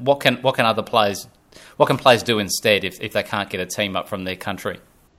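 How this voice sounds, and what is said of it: Australian accent. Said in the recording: “obviously I'm in Australia, as no doubt you can tell from the accent.”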